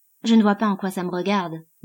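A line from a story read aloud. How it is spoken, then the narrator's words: Curt tone. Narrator (French): dit-il d'un ton sec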